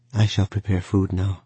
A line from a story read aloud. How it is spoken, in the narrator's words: she answered evenly